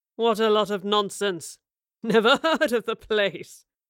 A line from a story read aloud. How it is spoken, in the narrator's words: the man chuckled